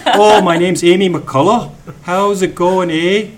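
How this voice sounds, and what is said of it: Cheesy mixed Scottish-Canadian accent. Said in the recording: “throw on a cheesy Scottish accent like I do ... That was a mix of Canadian and Scottish.”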